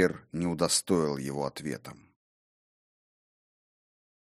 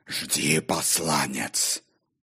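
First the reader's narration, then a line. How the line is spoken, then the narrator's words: Wolf's growl. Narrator (Russian): прорычал волк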